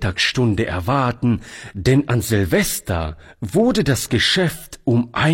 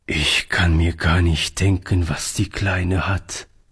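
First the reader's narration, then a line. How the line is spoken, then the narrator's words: Sad. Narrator (German): sagte Oliver traurig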